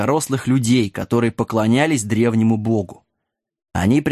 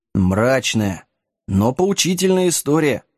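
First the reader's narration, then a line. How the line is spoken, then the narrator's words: Amused snort. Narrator (Russian): хмыкнул Сэм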